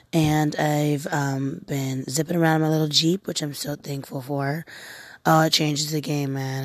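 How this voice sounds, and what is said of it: Slightly raspy, low-energy voice. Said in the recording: “my voice probably sounds a little bit raspy ... I'm very low energy”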